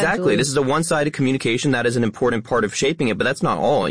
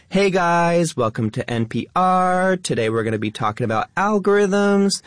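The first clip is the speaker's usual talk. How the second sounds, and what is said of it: Influencer accent with rising uptalk. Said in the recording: “lifestyle influencer accent ... It has that uptalk. It has the rising tone.”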